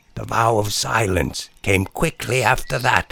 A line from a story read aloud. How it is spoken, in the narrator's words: she said, whispering, as though in violating the vow as she was, she felt obliged to at least pay her respects to its inaudible aims